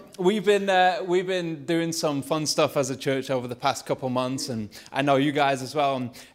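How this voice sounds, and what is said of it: Lancashire English accent. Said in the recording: “my Lancashire accent”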